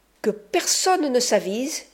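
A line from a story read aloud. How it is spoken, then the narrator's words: Exclaimed. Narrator (French): s'écria-t-il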